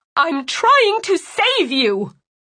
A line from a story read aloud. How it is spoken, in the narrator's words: she shouted